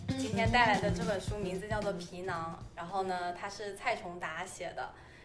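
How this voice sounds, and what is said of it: Strong Southern Min, Hong Kong-Taiwan accent. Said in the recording (Chinese): “就是他有闽南口音，他有...港台，...他有非常强的港台。...为什么有非常强的闽南口音？”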